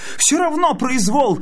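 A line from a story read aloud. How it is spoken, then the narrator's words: Shouted. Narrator (Russian): кричал Клоп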